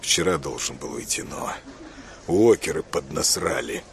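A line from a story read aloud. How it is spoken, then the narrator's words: Gloomy. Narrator (Russian): мрачно ответил Миллер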